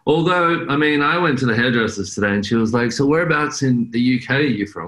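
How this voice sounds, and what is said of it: Australian accent. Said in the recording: “I'm Australian ... an Australian accent”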